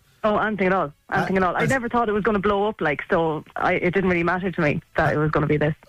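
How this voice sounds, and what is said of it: Irish accent. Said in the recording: “I love your voice. And I love your accent.”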